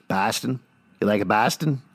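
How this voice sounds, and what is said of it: Awful put-on Boston accent. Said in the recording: “How's my accent work, eh? ... That's awful. ... Most of your accent work. ... Atrocious. ... the Boston accent.”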